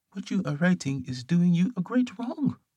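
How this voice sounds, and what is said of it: Bad put-on French accent. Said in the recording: “Terrible French accent”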